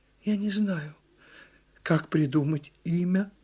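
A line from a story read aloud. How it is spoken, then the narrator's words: Quiet. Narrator (Russian): ответила тихо черепаха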